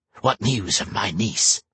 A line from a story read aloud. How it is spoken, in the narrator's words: she hissed, flicking her tongue like a snake